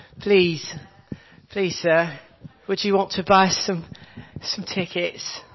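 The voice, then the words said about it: Put-on slight British accent. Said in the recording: “adopt a slightly British accent”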